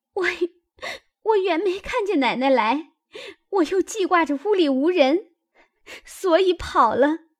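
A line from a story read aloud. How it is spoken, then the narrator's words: Crying girl. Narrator (Chinese): 小丫头子哭道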